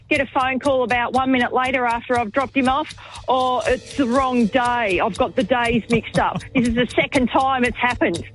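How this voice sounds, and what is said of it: Angry, irritated speaking voice. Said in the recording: “hear the anger in your voice.”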